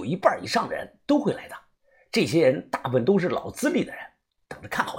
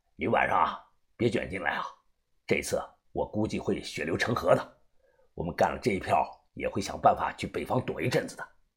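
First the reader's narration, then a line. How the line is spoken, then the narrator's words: Flat calm. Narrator (Chinese): 福建张哥他淡淡的又说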